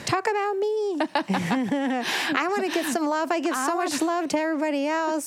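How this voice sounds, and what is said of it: Voicing a rose quartz crystal. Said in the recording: “That's how her voice is, FYI. That's how rose quartz talks.”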